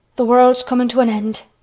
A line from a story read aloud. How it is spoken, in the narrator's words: gasped Martha